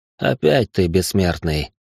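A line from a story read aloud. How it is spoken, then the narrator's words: Tired. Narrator (Russian): устало сказал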